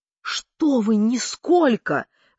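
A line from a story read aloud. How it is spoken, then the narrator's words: Fat man's heated exclamation. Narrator (Russian): жаром воскликнул толстяк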